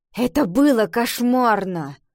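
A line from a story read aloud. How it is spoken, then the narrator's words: Grumbled reply. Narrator (Russian): Пробурчала Ива в ответ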